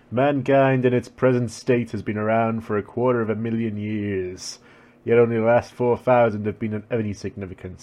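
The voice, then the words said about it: Put-on administrator voice. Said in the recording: “put on my my administrator voice ... I sound like fucking Skullface from Metal Gear.”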